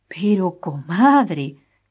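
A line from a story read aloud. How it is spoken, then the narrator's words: Exclaimed. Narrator (Spanish): exclamó Frutos Pareja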